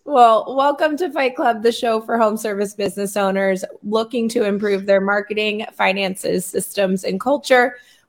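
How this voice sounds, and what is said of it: Strained, struggling voice. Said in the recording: “My voice is struggling”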